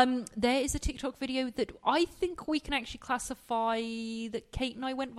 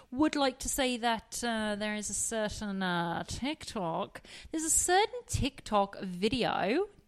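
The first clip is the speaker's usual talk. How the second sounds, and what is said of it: Put-on accent. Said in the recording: “Don't know why I'm reverting back to this accent.”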